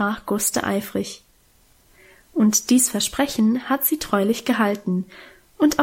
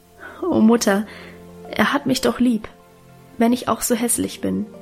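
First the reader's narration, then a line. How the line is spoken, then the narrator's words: Stammering, laughing and crying. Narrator (German): Gustl stammelte lachend und weinend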